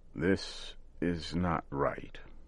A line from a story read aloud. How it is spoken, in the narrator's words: said slowly and carefully